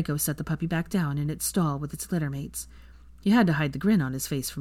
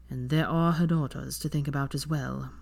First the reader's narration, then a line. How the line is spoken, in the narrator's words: Draco added solemnly